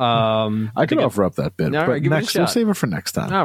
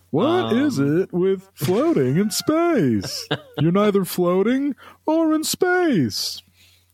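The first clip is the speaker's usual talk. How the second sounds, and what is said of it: Imitates another person's voice. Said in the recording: “my Seinfeld impression”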